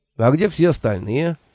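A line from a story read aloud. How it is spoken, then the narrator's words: Cheerful question. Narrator (Russian): бодро спросил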